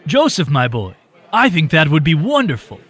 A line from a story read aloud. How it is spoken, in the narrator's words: Roland said excitedly